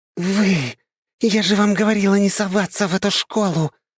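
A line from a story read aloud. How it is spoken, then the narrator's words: Angry hiss. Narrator (Russian): продолжает шипеть старшая сестра моего друга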